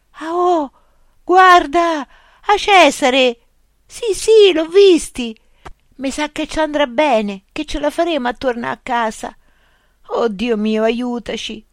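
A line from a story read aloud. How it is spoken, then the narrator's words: Groaning. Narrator (Italian): gemette Remo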